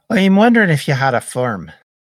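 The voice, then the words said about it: Put-on accent. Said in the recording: “Oof, that accent.”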